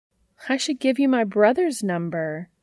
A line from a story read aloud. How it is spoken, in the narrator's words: she says, her voice warm and bright